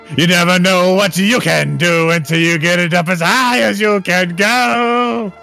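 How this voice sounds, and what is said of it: Strained attempt at falsetto singing. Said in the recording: “Sorry, I can't do falsetto.”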